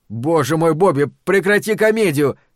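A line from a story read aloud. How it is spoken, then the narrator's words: Shouted. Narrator (Russian): крикнул я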